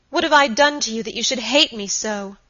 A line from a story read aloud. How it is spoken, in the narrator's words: He answered her very gravely